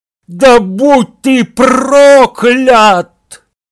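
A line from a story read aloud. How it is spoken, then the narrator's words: Loud angry shout after someone. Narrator (Russian): Гарри сжал кулаки и громко крикнул ему вслед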